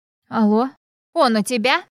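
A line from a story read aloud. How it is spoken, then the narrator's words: Hoarse woman breaking into shout. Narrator (Russian): Хриплый женский голос, срывающийся на крик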